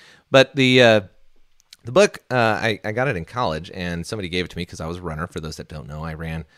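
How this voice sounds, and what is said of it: Usual voice. Nothing is said of it.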